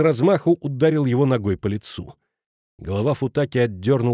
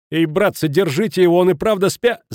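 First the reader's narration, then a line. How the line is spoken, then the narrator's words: Shouting, cut off. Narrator (Russian): закричал Футаки, но не успел закончить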